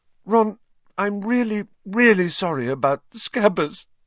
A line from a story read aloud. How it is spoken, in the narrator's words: she sobbed